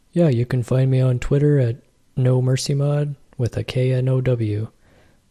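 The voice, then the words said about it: Impression of the co-host. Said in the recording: “Was that a good Brandon impression? Probably not.”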